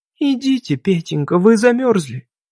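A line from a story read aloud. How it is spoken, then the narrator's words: Affectionate tone. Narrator (Russian): она говорила ласково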